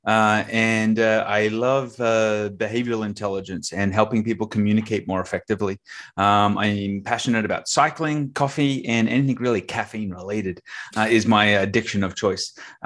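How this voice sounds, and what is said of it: Australian accent. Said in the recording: “As you can tell, I have an accent, so that means I'm from Australia.”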